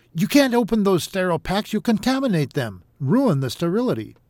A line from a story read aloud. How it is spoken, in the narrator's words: David shouted